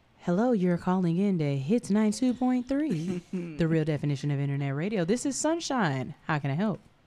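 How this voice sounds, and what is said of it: Polished radio phone-answering voice. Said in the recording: “It sounds like a white lady ... That my radio voice right here”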